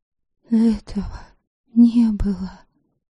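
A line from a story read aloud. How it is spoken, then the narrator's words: Whisper. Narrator (Russian): шептала Предслава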